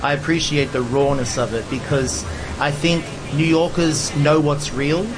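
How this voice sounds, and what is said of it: Mild Australian accent. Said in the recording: “the Aussie accent ... it's not as strong as it used to be”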